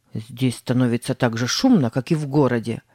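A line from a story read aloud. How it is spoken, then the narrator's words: Grumbling. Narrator (Russian): проворчал Тим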